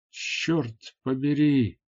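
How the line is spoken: Exclaimed. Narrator (Russian): воскликнул он

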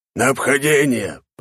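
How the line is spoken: Breathless growl. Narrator (Russian): прорычал главный, у которого уже была отдышка от долгого бега

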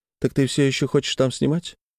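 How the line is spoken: Quiet voice. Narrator (Russian): Лена тихим голосом говорит

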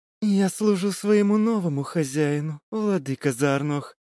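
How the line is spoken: Purring. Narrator (Russian): промурлыкала она

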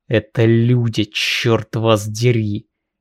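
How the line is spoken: Growl through clenched teeth. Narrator (Russian): Не выдержав, стиснув зубы, прорычал Иоанн

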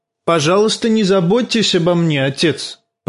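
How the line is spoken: Angry. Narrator (Russian): проговорил Тирион сердитым голосом

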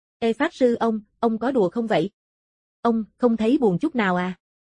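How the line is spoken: Stammering. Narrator (Vietnamese): Trương Lập lắp bắp

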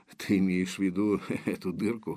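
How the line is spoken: Wry snort. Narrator (Russian): хмыкнул Железовский

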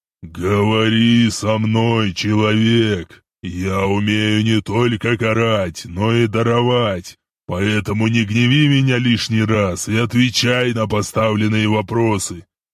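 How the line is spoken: Booming voice in head. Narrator (Russian): тот же голос в голове прогремел

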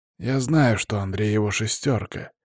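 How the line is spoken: Quiet grumble. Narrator (Russian): тихо проворчал Палыч

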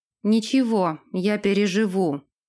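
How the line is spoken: Angry words through teeth. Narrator (Russian): процедил Дерек, гневно глянув на Нэша

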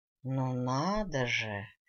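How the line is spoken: Drawn-out drawl. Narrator (Russian): протянул мой бывший жених

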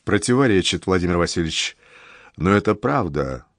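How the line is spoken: Great-grandfather objecting dejectedly. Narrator (Russian): уныло возражает мой прадед

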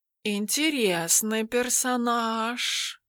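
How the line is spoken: Purring. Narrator (Russian): промурлыкал Тимофей

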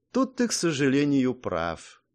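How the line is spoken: Sad sigh. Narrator (Russian): грустно вздохнула Мэй

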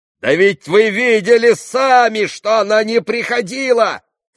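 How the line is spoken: Shouting. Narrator (Russian): кричал Иван

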